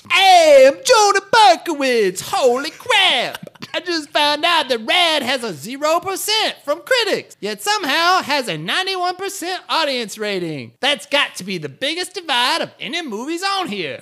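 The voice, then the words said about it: Italian chef accent that drifts. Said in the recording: “I felt like I changed my accent halfway through. ... It started as an Italian chef, and I don't know what it ended as.”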